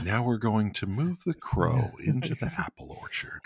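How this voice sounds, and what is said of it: Soft, soothing bedtime-story voice. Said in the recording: “your voice is too soothing”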